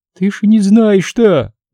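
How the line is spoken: Holding back sobs. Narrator (Russian): начала говорить Зинаида, стараясь хоть как-то унять рвущиеся наружу рыдания

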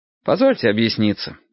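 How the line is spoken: Calm. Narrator (Russian): сказал я спокойно

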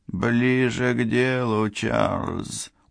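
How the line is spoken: Tired. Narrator (Russian): устало сказал Рот

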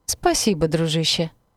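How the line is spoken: Laughing throughout. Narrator (Russian): не прекращал хохотать Мика

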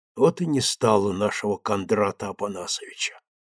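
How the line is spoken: Deep sigh. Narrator (Russian): глубоко вздохнул Илья

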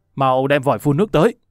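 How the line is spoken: Loud shout, gritted teeth. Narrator (Vietnamese): cắn răng quát lớn

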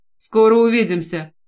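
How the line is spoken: Serious tone. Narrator (Russian): серьезным тоном произносит

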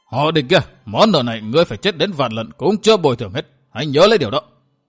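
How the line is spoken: Furious shout through gritted teeth. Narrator (Vietnamese): Nghiến răng trèo trèo, Miêu Như Đồng ... căm phẫn tột độ, nói như quát

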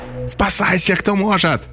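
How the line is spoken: Shouting. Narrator (Russian): закричал кто-то

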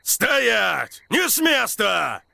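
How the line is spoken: Shout. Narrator (Russian): крикнул Деннис Кранмер

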